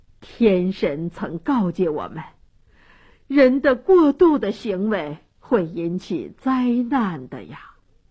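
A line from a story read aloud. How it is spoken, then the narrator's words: Resigned sighing. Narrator (Chinese): 这些长老知道国王决心已定，再说也救不了安提格涅，都叹息地说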